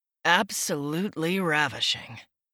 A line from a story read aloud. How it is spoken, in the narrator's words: he murmured